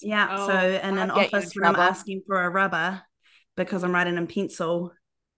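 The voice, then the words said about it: Speaks with a non-American accent. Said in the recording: “Damn this accent.”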